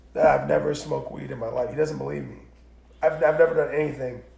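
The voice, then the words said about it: Sick-sounding voice. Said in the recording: “I'm kind of sick, guys. Sorry about my voice.”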